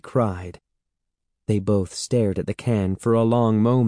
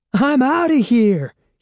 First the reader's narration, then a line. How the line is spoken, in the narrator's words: he exclaimed